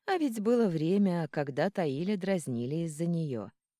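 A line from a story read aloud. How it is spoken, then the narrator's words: Laughing, reminiscing woman. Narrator (Russian): засмеялась она, продолжая вспоминать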